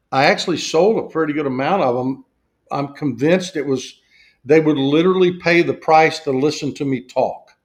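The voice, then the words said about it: Southern US accent. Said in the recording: “because of my accent ... there are people like this in the South”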